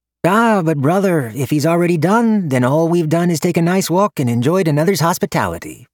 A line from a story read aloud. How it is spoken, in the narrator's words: Yunjin chirped, ever the pragmatist